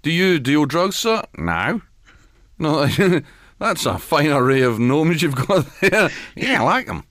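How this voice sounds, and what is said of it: Put-on New Zealand accent. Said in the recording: “That's my New Zealand accent.”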